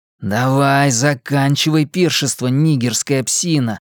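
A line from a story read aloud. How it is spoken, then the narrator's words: Male hiss. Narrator (Russian): прошипел Генри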